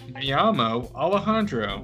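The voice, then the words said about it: Exaggerated gringo Spanish accent. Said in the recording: “you would have the whitest Mexican accent. The whitest Spanish accent,”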